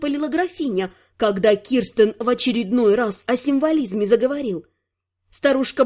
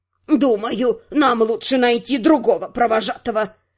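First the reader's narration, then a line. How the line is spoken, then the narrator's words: Stern. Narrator (Russian): сказала строго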